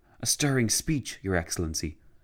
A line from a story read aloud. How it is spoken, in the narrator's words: General Mackay whispered to him